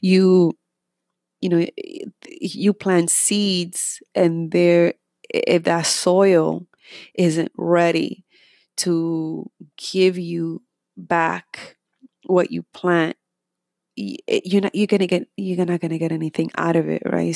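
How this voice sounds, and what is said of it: Slight accent. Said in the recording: “I still have a little bit of an accent”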